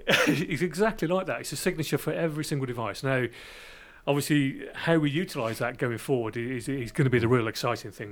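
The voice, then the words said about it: Brummie accent. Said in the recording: “my Brummie accent coming across”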